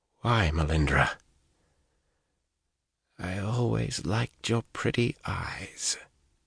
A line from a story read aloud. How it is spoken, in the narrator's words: she breathed, so faint he had to strain to hear